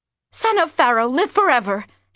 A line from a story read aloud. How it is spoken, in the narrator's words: gasped